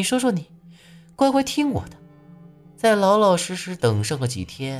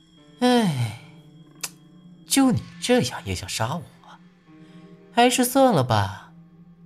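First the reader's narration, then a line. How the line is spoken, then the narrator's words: Sighing. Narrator (Chinese): 他叹了一口气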